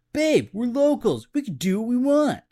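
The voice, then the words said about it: Put-on New Jersey accent. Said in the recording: “with a Jersey accent”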